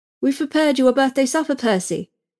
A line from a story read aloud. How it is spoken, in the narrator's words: governess said, brightly